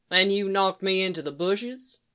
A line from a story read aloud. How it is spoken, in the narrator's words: He said dryly